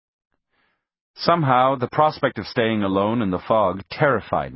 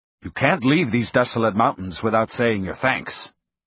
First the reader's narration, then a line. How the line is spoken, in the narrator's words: said in a firm tone